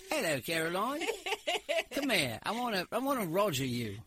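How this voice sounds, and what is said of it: Put-on British accent. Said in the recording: “you should talk to me in a British accent”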